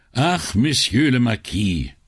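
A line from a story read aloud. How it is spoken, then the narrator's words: Loud sigh. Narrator (German): seufzte Brunetti laut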